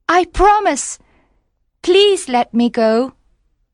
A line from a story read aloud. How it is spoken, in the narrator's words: cried the mermaid